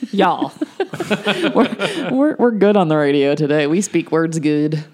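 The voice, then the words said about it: Put-on Southern accent. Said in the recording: “Why you got to do a southern accent ... That was totally wrong.”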